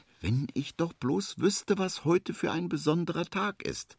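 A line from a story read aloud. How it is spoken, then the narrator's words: Sighing. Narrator (German): seufzt Henry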